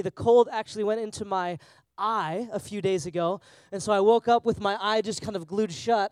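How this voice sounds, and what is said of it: Voice of someone with a cold. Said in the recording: “I've got a little cold,”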